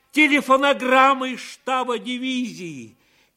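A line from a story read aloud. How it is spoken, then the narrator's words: Shouted joyfully. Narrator (Russian): радостно закричал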